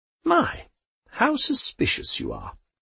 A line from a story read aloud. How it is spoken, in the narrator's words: she sighed